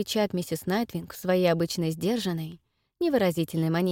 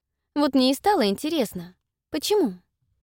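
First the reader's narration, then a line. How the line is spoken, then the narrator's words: Forced innocent carefree tone. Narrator (Russian): стараюсь говорить как можно более невинным и беспечным тоном, хотя сердце колотится уже прямо у меня в горле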